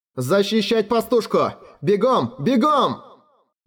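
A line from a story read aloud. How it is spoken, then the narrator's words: Shouting again. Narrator (Russian): Снова выкрикнул Либерт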